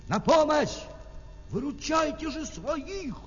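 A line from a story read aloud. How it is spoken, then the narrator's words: Shout. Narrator (Russian): крикнул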